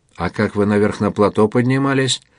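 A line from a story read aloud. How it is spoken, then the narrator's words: Plain. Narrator (Russian): спросил Галкин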